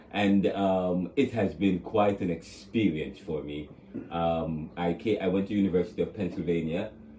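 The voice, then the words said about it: Jamaican accent. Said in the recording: “you hear the accent... I'm from Jamaica”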